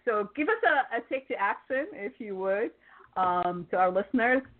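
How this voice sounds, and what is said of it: Accented English speech. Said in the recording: “See, it always sounds like humor, I'm saying, my accent.”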